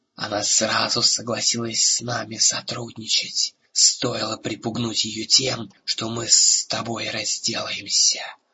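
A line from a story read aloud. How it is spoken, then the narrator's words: Hissing. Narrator (Russian): прошипел Разык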